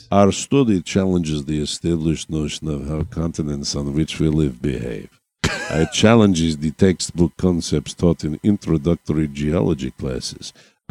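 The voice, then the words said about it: Put-on Russian accent. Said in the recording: “I'm just going to give him a Russian accent.”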